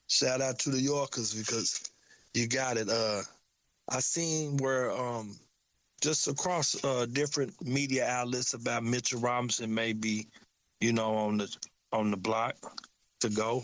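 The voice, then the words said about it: Country accent. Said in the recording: “I got my country accent”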